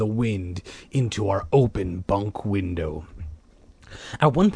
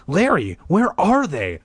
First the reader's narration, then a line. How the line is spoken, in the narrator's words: I cried out breathlessly